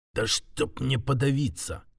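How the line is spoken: Muffled greedy mutter. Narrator (Russian): глухо пробормотал, не от страха, а от жадности, которая буквально распирала грудь

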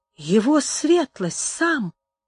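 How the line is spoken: Terrified mutter. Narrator (Russian): бормотал, точно окаменевший от испуга, Рикардо

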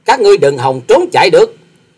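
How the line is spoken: Angry snort, loud shout. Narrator (Vietnamese): quái nhân áo xanh sắc mặt đang giận dữ hừ lạc một tiếng già quát to

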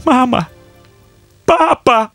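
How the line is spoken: Shout. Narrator (Russian): закричал он

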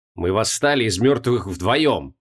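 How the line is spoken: Hissing. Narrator (Russian): прошипел Трой

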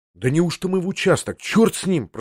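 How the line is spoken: Whispered. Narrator (Russian): прошептал я ему

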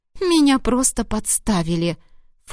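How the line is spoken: Snort, nymph. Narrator (Russian): фыркнула нимфа

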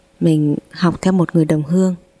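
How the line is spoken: Stammering. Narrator (Vietnamese): lắp bắp

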